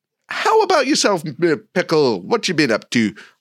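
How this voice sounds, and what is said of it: Weird put-on accent. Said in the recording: “I don't know why I did that accent... that was a weird accent”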